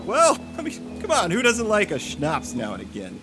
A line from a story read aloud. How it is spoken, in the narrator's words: Jake rallied with a laugh